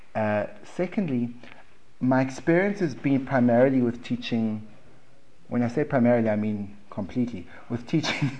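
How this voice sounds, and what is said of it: South African accent. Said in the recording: “I have a South African accent”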